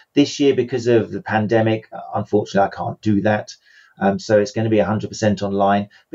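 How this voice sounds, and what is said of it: English accent. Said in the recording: “I fly them all over to England, which is where obviously I'm from. You can tell probably by my accent.”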